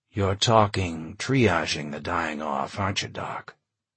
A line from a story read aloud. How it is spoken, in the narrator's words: John said quietly